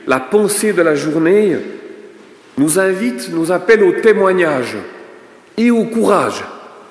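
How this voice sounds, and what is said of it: Non-Québécois French accent. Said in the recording (French): “Vous avez reconnu par mon accent que je ne suis pas né au Québec.”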